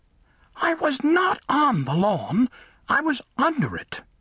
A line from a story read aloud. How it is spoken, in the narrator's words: the mole said angrily